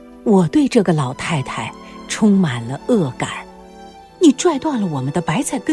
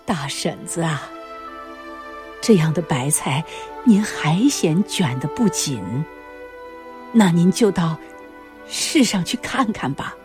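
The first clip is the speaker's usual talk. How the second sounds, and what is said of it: Sad, sorrowful voice. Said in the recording (Chinese): “母亲用忧伤的声音说”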